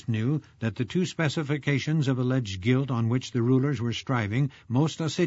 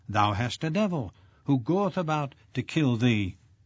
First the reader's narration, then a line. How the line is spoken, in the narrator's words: in the spirit of the blasphemous slander they cried out